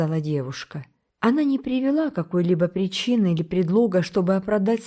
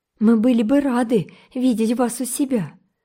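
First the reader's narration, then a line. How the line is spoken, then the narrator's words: Exclaim, regaining composure. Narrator (Russian): воскликнула Энн, немного придя в себя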